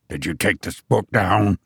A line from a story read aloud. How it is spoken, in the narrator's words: he said sharply